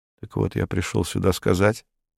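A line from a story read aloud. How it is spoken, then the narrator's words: Quiet, flat voice. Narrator (Russian): произнес Абалкин все тем же тихим бесцветным голосом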